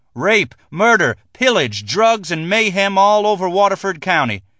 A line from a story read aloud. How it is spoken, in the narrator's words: T screamed